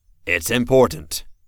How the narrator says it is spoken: Fel said, raising his voice to be heard

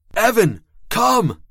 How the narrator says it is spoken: I screamed the words, as if volume could impart some measure of power, commanding the ghost

